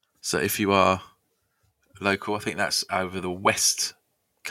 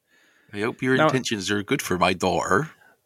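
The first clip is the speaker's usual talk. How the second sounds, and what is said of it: Put-on West Country accent. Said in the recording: “It was good. It was a good West Country accent... Now I know why your pirate accent's so good.”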